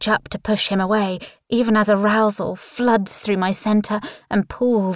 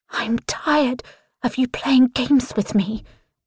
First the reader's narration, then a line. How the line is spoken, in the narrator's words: I hiss